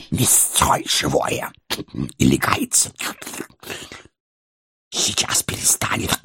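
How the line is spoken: Angry hiss. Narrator (Russian): Злобно зашипел паук

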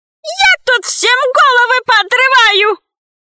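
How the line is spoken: Crying, squealing shriek. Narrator (Russian): плакала, пищала, верещала

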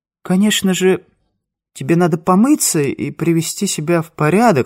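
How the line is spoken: Unsure. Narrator (Russian): сказала Лидочка неуверенно

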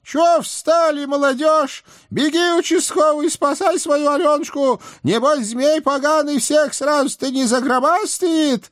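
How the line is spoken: Shouting old woman. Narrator (Russian): моя тихая старушка крикнула нам

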